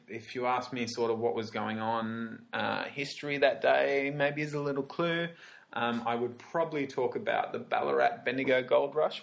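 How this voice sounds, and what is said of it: Australian accent. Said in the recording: “here in Australia, which I am from, hence the sexy accent that you're hearing in your headphones right now”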